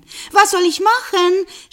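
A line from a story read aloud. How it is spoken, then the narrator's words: Shouting after someone. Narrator (German): schrie ihm die Frau nach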